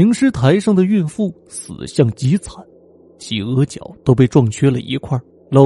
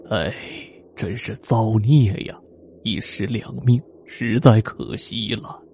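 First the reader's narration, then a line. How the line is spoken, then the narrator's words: Sorrowful lament. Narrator (Chinese): 张馆长惋惜的悲叹道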